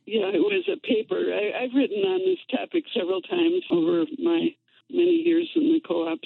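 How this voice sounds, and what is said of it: Voice sounds like she has a cold. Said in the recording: “It sounds like you might also ... I usually sound like that. ... It's my permanent condition.”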